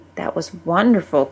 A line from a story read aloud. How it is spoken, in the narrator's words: Gwen said quietly